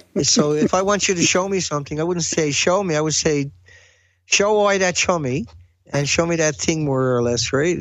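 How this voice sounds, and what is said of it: Heavy Newfoundland accent. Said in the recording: “You still got that heavy accent. ... Are you from Newfoundland then, or?”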